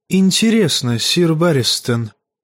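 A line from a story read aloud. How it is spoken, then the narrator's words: Quiet question. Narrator (Russian): негромко спросил Варис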